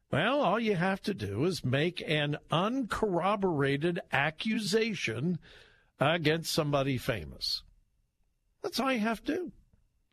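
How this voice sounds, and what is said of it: Heavily sarcastic delivery. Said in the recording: “Am I being sarcastic? Yes. Dripping with sarcasm”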